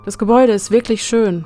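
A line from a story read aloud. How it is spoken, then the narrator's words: Plain. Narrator (German): sagte ich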